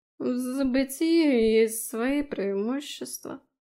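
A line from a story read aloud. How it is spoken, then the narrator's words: Sleepy lip-smacking. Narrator (Russian): сонно причмокнул он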